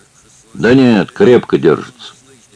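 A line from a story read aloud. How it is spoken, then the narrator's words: Calm miner's answer. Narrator (Russian): спокойно ответил углекоп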